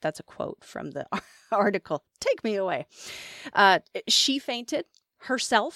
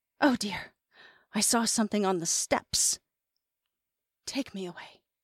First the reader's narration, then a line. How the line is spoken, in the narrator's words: she gasped